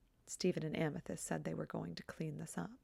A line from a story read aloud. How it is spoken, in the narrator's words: Pearl mutters under her breath